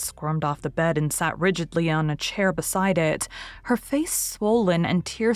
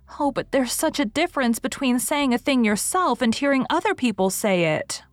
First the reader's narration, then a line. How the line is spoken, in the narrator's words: wailed Anne